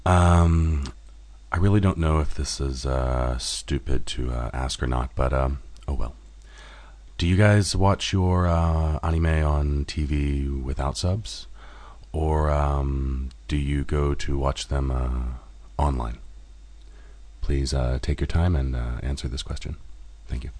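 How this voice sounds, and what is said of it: NPR radio host voice. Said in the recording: “in my NPR voice ... An NPR voice.”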